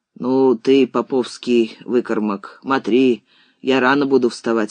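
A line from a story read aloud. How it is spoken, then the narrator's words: Grumbling. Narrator (Russian): ворчал Степан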